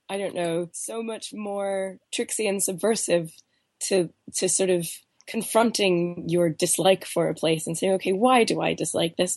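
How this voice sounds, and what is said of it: Voice affected by a cold. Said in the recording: “I still have this cold. My voice sounds. ... you're very bravely doing this through a cold ... I'm finding all these new nooks and crannies in my voice I didn't know were there”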